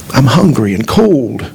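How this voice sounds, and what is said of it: Weak, feeble voice. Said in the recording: “in a weak voice.”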